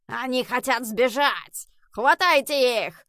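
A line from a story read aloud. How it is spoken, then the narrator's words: Booming voice in tunnel. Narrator (Russian): прогремел в туннеле голос Фергуса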